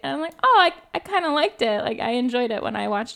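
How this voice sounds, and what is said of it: Usual voice. Nothing is said of it.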